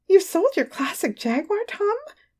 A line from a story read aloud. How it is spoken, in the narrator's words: She exclaimed